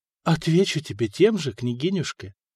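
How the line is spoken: Breathed into ear. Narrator (Russian): выдохнула ей в ухо Мария

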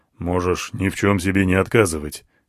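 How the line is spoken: Snorting smirk. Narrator (Russian): хмыкнул он

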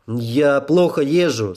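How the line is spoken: Plain. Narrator (Russian): сказал я

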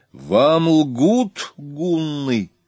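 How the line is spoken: Loud proclamation. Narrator (Russian): Громко возвестила она вновь

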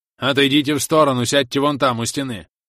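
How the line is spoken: Guard barking order. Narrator (Russian): рявкнул на них старший охранник

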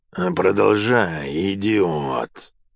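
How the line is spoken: Whispered through teeth. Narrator (Russian): прошептал сквозь зубы Нерон

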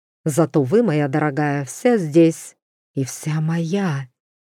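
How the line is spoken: Purring. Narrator (Russian): Эвелин промурлыкала

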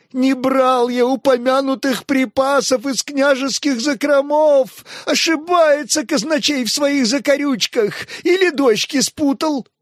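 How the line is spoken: Red-faced wailing. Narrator (Russian): продолжал вопить покрасневший, как вареный рак, Тиун

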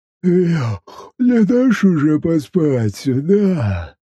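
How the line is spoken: Sleepy question. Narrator (Russian): Сонным голосом поинтересовался Боб

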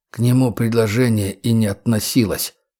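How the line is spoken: Muttered. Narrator (Russian): буркнул Трен

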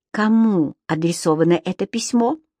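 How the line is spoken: Whisper, lips close. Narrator (Russian): Он, едва касаясь их губами, прошептал

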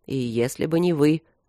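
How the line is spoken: Calm. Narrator (Russian): добавил он спокойно

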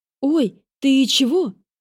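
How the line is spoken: Frightened shriek. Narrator (Russian): Испуганно взвизгнула Кара

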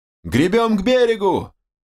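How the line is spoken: Yell. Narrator (Russian): заорал я

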